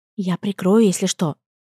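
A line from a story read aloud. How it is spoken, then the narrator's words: Whispered into ear. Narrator (Russian): прошептала на ухо Агата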